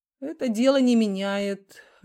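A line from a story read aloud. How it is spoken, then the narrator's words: Lazy reply. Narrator (Russian): лениво отозвался Бондаренко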